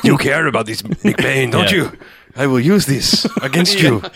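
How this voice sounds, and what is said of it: Evil villain accent. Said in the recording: “My accent is evil.”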